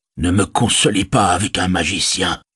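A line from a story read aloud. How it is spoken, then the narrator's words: Plain. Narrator (French): dit Denethor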